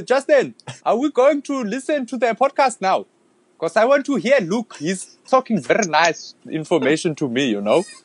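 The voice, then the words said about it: Put-on Zulu accent. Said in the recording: “I can give you a Zulu accent.”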